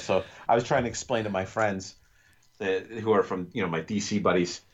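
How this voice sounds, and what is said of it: New York accent. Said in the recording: “I'm in New York, so I got my accent is coming out”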